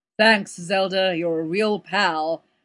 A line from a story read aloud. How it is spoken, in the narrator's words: sneered Cosmo, dropping his pitch in imitation of Don